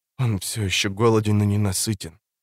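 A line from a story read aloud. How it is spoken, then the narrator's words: Whispered. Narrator (Russian): прошептала она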